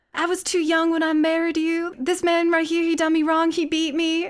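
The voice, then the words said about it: Put-on southern American accent. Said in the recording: “I'm going to go into a southern accent”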